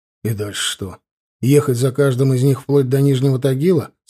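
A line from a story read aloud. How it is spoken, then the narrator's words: Plain. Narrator (Russian): спросил Александр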